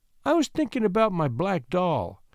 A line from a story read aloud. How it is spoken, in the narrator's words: said little Joyce timidly